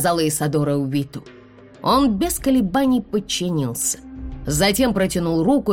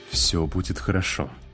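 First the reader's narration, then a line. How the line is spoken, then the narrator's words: Mumbled. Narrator (Russian): пробормотал Увит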